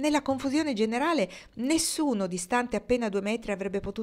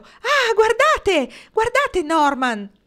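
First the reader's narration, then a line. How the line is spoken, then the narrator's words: Voice breaking into shriek. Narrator (Italian): La sua voce ruppe in uno strillo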